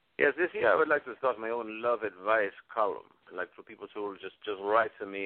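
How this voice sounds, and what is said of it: Venezuelan-accented English. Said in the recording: “Are you of Italian descent?... I am Venezuelan... the Venezuelan accent”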